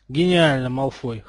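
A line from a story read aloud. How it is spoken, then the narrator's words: Cold, smiling. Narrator (Russian): холодно улыбнулся Поттер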